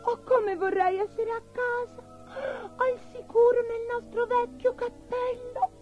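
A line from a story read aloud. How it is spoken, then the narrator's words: Sobbing. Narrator (Italian): singhiozzò Abigail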